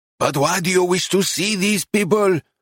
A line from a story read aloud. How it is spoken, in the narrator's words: shouted